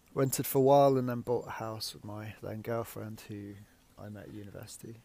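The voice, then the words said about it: Leicester, English Midlands accent. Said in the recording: “I'm from the Midlands originally, Leicester. You can probably tell by my accent.”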